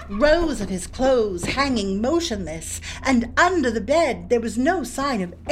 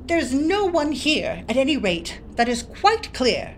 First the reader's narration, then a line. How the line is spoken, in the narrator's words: he exclaimed aloud